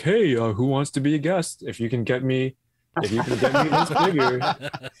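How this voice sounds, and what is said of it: Imitates another person's voice. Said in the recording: “that was a good impersonation of me... That was very spot on.”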